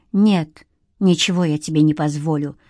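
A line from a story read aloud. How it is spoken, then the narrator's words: Hissed. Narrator (Russian): зашипела Ирина Анатольевна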